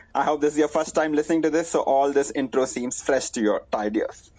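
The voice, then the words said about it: Indian English accent. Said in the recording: “your favorite NBA podcast in an Indian accent.”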